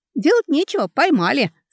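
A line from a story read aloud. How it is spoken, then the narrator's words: Laughed more freely. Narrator (Russian): свободнее засмеялся Алекса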